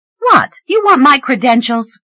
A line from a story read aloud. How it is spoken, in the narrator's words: she scoffed, now obviously very angry, but keeping a firm grip on herself